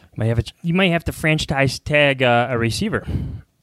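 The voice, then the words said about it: Thick Chicago accent. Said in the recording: “My Chicago accent got really thick there for a second.”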